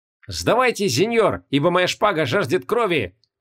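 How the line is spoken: Shouted. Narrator (Russian): крикнул Козикал

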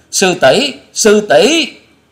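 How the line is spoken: Terrified screams together. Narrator (Vietnamese): Tạ Trinh Trinh, Bạch Dân Dân, Trịnh Bội Hà cùng kinh hãi rú lên

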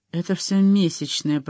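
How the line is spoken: Muttering. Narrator (Russian): пробормотала

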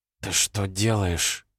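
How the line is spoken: Whisper. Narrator (Russian): прошептала

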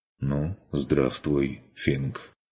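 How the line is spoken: Quiet, gloomy, heavy sigh. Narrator (Russian): тяжело вздохнув, произнес невесело и тихо

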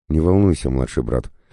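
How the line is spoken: Soft smiling voice. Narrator (Russian): мягко улыбнулась

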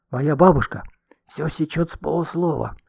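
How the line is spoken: Whispered warning. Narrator (Russian): шепотом предупредила она

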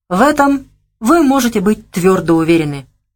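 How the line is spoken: Exclaimed firmly, with pathos. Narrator (Russian): решительно и с некоторым пафосом воскликнул генерал

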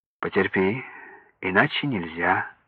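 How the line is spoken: Calm surgeon. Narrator (Russian): спокойно говорит хирург

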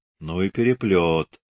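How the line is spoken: Whisper. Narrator (Russian): шепнуть Скачков

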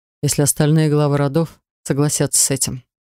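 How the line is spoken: Grim. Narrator (Russian): мрачно подтвердил некромант

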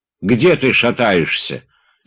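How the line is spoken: Stern question. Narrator (Russian): строго спросил Тарантьев

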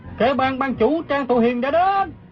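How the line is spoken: Crowd shouting. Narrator (Vietnamese): Quần hùng la lên

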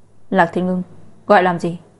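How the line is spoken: Angry. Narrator (Vietnamese): Lạc Gia Hân tức giận nói

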